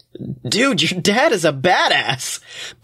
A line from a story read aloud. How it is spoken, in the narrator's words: Blake laughs